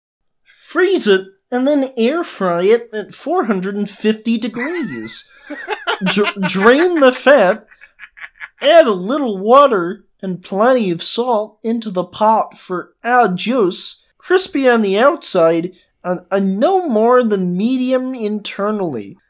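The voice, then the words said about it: Jordan Peterson impression. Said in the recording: “Jordan Peterson sees this ... Can I do the voice? ... Oh, please do the voice.”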